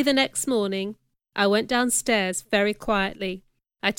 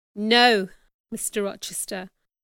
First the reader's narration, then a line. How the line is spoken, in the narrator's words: replied firmly